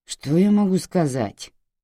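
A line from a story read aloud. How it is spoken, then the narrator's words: Grumbling. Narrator (Russian): проворчал Уэстон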